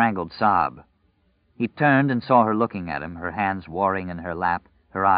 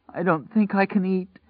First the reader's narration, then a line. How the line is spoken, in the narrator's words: she sobbed